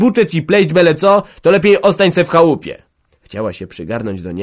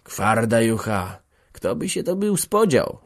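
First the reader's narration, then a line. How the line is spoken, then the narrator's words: Creature muttering. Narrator (Polish): mruknął kłąb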